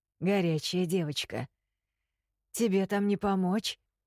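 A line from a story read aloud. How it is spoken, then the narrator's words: Hoarse question, jailer. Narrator (Russian): Хриплым голосом осведомился наш тюремщик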